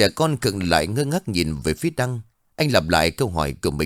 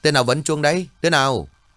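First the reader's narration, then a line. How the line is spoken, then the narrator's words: Loud shout. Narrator (Vietnamese): anh lớn tiếng quát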